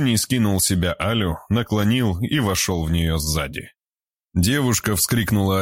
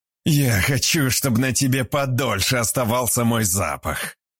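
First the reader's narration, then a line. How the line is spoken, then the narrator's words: Contented breathy exhale. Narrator (Russian): довольно выдохнул он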